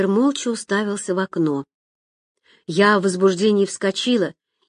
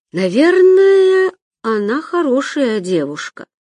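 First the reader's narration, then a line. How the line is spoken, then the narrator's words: Drawling. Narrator (Russian): протянул Виктор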